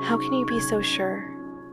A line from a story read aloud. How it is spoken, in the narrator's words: Darwin whispered